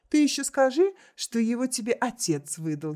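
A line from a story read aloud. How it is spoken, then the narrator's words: Giggling. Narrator (Russian): хихикнула Октавия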